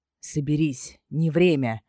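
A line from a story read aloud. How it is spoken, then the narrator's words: Stern. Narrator (Russian): строго произнес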